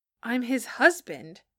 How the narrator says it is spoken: Johnny said hotly

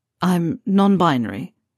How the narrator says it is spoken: Draco blurts

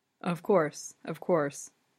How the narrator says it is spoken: he murmurs

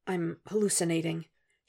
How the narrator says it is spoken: he whispers again

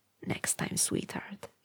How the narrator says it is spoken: he whispered

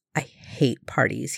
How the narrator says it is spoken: muttered

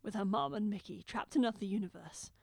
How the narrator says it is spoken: the Doctor says thickly

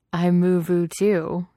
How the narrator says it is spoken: Jared said, laughing

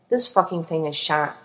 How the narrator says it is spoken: Dean muttered

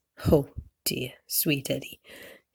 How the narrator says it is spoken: Hildy says, chuckling at him

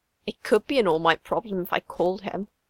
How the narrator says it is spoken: Izuku mumbles mutinously

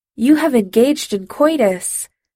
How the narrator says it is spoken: Senek announced loudly

